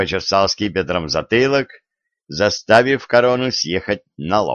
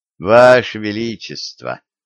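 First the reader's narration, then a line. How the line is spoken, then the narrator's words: Weary sigh, young man. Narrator (Russian): устало вздохнул юноша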